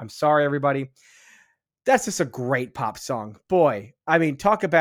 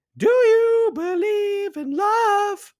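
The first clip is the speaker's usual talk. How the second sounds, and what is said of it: Singing in falsetto. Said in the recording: “There's my falsetto.”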